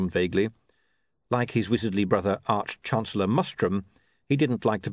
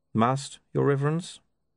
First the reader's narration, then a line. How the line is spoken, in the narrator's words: he said calmly